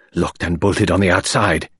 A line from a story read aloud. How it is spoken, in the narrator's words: he growled